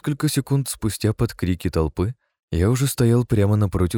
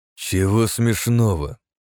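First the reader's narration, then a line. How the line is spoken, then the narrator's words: Angry snarl. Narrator (Russian): зло ощерился мой противник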